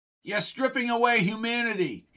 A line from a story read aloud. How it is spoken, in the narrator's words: he screamed as they hauled his body into the dome